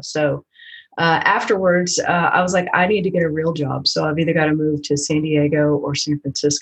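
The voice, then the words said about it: Southern Tennessee accent. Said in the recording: “You're probably going to hear it in my accent... I did grow up in Tennessee”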